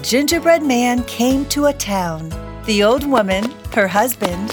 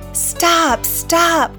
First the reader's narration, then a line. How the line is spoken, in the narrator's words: cried the townspeople